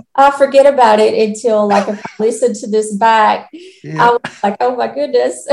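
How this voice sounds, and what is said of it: Noticeable accent. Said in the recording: “never lose that accent ... Never lose that accent. Love that accent.”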